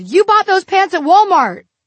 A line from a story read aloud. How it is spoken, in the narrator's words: a boy pointed loudly and said